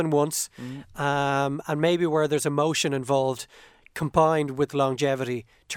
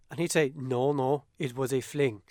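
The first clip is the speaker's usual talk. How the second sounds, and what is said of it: Put-on Limerick Irish accent. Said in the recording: “In a Limerick accent.”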